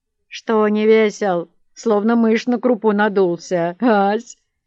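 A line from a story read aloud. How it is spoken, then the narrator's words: Mocking. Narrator (Russian): произнес Матюшка насмешливо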